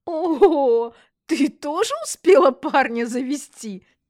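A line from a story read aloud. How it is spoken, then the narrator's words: Giggling, hiding excitement. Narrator (Russian): Жонглёрша хихикнула и, пряча веками волнение в глазах, ответила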